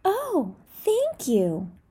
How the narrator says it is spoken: exclaimed the bear, smiling

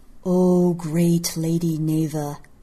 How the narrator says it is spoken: a voice intoned

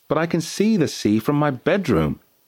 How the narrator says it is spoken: exclaimed Matty

